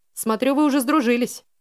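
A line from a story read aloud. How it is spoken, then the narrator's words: Cheerful chuckle. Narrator (Russian): весело хмыкнул он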